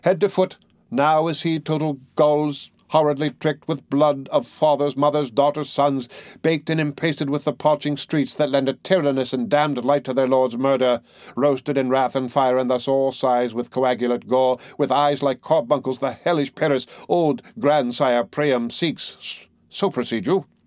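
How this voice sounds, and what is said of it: Well-spoken dramatic recitation. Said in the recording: “well spoken, with good accent and good discretion.”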